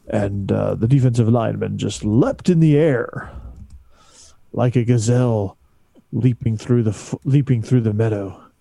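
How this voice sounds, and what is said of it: Dramatic NFL Films narrator voice. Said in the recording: “in my best radio voice ... NFL film style”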